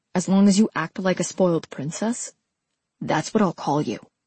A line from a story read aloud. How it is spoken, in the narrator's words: he said